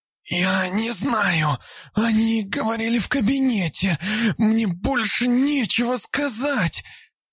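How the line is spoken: Hoarse rasp. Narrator (Russian): Прохрипела Габриэла

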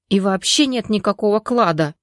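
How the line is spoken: Angry. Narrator (Russian): зло сказал Степаныч

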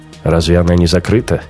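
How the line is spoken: Scoffing grunt. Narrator (Russian): Раухер хмыкнул

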